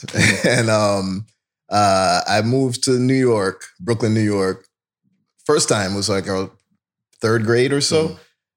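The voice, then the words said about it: Slight Jamaican-tinged accent. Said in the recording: “I'm hearing the twang in your voice.”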